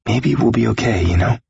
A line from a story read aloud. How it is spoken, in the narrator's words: he whispered eventually